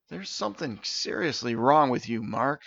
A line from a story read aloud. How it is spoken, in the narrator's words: Steven sighed